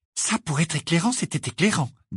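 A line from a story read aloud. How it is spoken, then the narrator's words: Low voice. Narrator (French): dit Hermione à voix basse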